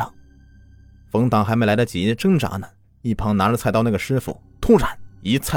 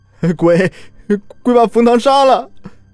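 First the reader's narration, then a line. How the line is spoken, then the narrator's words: Terrified, voice breaking. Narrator (Chinese): 李亮声音都变了，里面带着无尽的恐惧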